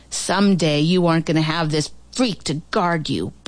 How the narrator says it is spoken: Barton snarled

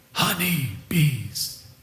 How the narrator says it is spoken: he whispered

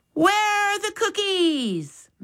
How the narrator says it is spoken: Max yelled

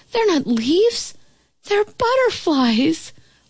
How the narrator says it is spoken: exclaim

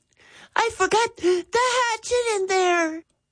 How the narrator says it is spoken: Jeffrey gasped

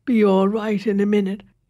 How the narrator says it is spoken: he said thickly

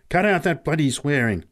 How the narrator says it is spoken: snapped Pat angrily

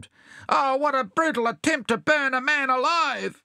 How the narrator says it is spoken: he gave a sharp yell

